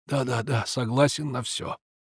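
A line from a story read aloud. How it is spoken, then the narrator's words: Exhausted mumbling. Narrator (Russian): он мог собрать последние силы и забормотать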